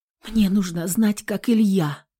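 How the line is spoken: Whisper. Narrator (Russian): прошептала я

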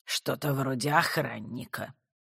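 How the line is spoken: Grandmother grumbling under breath. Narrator (Russian): пробурчала себе под нос бабуля

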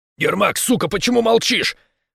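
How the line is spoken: Barked. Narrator (Russian): Рявкнул Рос

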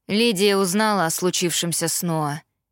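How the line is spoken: Plain. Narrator (Russian): сказал Итан

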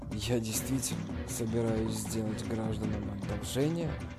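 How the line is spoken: Muttered. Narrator (Russian): Джан Ян пробормотал

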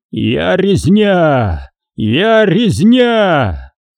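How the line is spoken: Loud growl. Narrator (Russian): Он громко зарычал

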